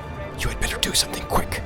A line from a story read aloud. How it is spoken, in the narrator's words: whispered Strider in his ear